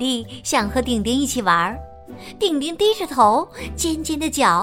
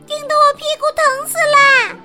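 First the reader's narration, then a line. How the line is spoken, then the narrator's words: Loud shout. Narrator (Chinese): 茉莉也大声叫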